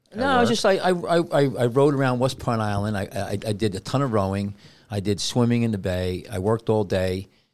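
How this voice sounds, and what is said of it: Tired, sad-sounding voice. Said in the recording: “Why do you sound sad? ... I'm tired, man. I'm beat up.”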